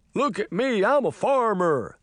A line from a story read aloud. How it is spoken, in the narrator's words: she said in a goofy voice